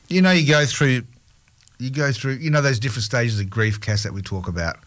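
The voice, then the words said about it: Congested voice with a cold. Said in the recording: “maybe you can tell that I've got a bit of a cold.”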